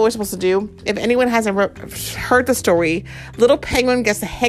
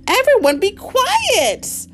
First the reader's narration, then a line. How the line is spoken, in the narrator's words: hollered